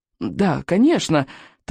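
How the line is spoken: Hurried mumbling. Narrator (Russian): торопливо забормотал рыбьенок

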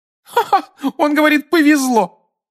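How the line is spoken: Laughing woman. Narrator (Russian): рассмеялась женщина с фиолетовыми волосами

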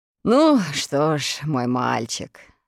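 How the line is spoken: Resolute after deep sigh. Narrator (Russian): решился наконец капитан, глубоко вздохнув

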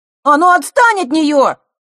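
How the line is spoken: Shout. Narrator (Russian): выкрикнул Лешка

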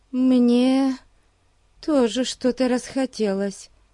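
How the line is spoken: Uncertain mumble. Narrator (Russian): неуверенно промямлила Дейзи

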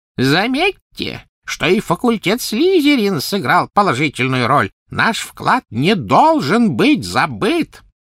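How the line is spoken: Thin high-pitched appeal. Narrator (Russian): Финиас Найджелус взывал своим тонким высоким голосом

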